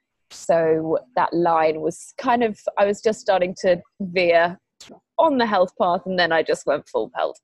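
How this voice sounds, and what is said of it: British accent. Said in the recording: “you were born in the UK ... I love your accent.”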